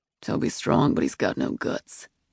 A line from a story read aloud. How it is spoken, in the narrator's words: he said in a low voice